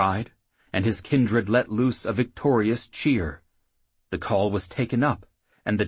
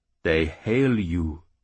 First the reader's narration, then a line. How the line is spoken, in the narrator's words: the priest replied